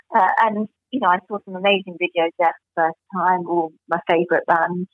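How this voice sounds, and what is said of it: Voice slightly strained, going hoarse. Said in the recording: “my voice is going a wee bit”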